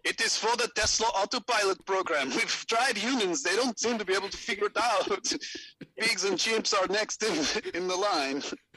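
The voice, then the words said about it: South African accent drifting Scandinavian. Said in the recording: “He just became Swedish all of a sudden, Elon... Hard to do that South African accent... Starts blending into the Scandinavian.”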